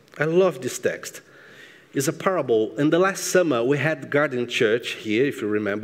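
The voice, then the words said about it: Speaks English with an accent. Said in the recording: “my beautiful accent”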